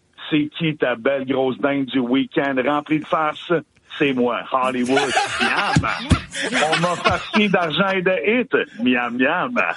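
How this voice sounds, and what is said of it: FM radio announcer voice. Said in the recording (French): “Je vais prendre ma voix FM.”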